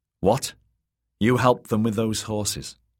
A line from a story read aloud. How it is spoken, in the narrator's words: said Willow